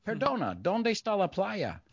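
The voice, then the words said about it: Mock foreign tourist accent. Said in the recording (Spanish): “¿sabes cómo todos imitamos los guiris?”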